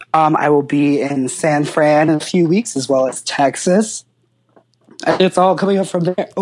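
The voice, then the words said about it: Hoarse, nearly lost voice. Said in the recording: “Oh, I lost my voice again. ... I'm afraid you have not much voice left”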